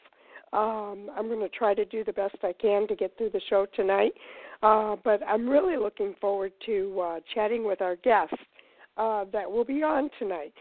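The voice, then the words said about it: Voice sounds off, sick with cold. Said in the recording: “I've had a cold all weekend, so my voice is just not quite myself.”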